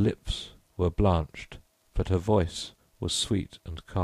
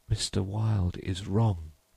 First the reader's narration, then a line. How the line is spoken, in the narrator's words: murmured Constance